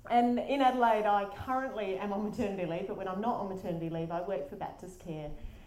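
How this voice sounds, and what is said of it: South Australian accent. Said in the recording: “I'm from Adelaide, which is why my accent might sound a bit funnier, but it's not from Auckland”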